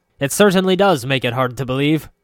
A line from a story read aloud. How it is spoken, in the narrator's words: Brokaw shouted back